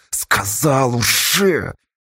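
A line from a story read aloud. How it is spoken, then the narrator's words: Frightened rasp. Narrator (Russian): сквозь страх прохрипела Сташа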